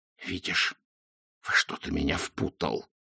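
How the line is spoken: Hissing. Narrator (Russian): прошипел Ринсвинд

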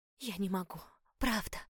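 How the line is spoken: Pitying whisper. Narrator (Russian): шепнула я, с жалостью

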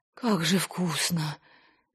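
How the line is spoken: Moaning. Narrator (Russian): застонала она

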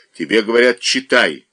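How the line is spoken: Wife, menacing repeat. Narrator (Russian): грозно повторила жена

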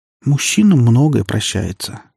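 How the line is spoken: Thoughtful. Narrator (Russian): задумчиво произнесла Лина

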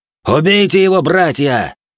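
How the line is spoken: Leader shouting out. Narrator (Russian): Старший орденцев выкрикнул

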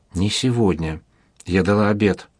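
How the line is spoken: Whisper. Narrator (Russian): шепнула

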